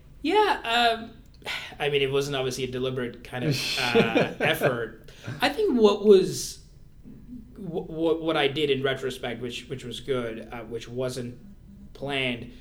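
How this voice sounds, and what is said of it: North American accent. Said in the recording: “the Canadian accent or the North American accent”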